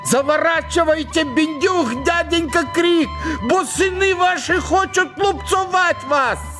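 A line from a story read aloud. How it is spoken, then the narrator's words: Shouting at full strength. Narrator (Russian): Семен, сын Анисима, закричал изо всех сил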